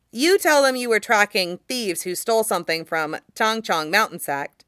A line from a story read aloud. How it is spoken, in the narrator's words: he says quickly